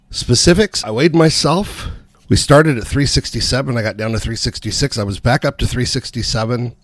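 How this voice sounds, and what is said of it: Voice strained after a cold. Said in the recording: “My voice is still not sounding 100%. I got a cold ... my voice just felt like it kind of gave out ... I still don't feel like it sounds normal”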